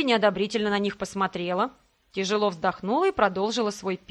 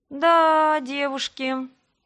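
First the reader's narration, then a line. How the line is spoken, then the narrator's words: Drawn-out, dismayed. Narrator (Russian): протянула я, представив размах катастрофы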